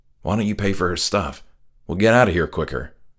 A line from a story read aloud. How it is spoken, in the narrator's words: quietly said